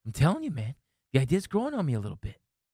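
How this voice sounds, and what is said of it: Mark Wahlberg accent impression. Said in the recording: “I'm Mark Wahlberg all of a sudden. ... I gave you a Wahlberg accent.”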